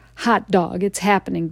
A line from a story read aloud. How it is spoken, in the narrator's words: Dad shouted